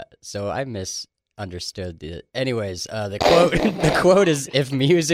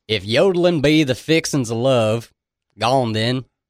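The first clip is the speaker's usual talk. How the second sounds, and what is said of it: Put-on Southern US accent. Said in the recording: “You got to do it in a southern accent... You have to act it out in a southern accent... Oh, that was excellent.”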